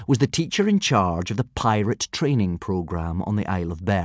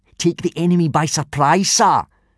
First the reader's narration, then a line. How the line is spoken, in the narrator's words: shouted out Snot-faced Snotlout, a tall, unpleasantly smug-looking boy